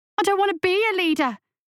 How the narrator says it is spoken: shouted Lasky, feeling hot tears running down his cheeks

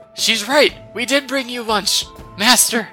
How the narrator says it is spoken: the cultists, the cultists yell

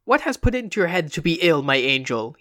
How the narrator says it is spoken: he cackled

